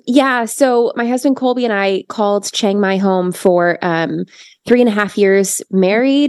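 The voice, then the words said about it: Hoarse voice. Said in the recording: “I'm a little hoarse recovering from a cold”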